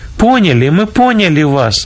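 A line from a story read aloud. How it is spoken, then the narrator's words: Joyful group shout. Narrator (Russian): радостно закричали они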